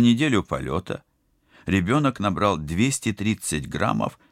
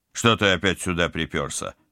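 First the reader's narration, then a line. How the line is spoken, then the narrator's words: Growled. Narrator (Russian): рыкнул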